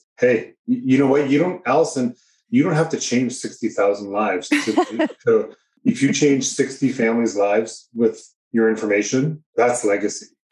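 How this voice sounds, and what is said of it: Canadian New Hampshire accent. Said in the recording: “that New Hampshire accent ... It's a funny Canadian New Hampshire accent.”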